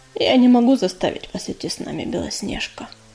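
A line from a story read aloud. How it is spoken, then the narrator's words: Tired voice. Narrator (Russian): устало проговорил Огнезвезд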